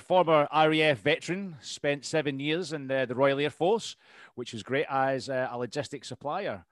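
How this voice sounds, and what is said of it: Scottish accent. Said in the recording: “you not tell by the Scottish accent, Steve? ... I've got a Scottish accent.”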